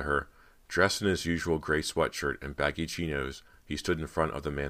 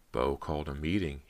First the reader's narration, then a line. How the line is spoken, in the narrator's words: he whispered